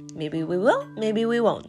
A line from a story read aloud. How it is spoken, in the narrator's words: said Snide